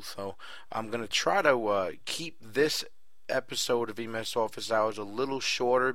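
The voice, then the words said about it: Hoarse, slightly nasal voice. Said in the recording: “I wound up getting a bad laryngitis from it ... I'm kind of still lingering a little bit with the laryngitis ... maybe a little more nasally than usual”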